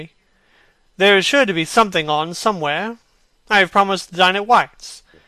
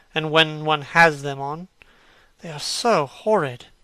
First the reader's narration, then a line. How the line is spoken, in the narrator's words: muttered Hallward